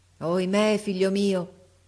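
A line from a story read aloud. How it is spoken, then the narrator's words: King sighing deeply. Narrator (Italian): disse il re Egeo gettando un sospiro profondo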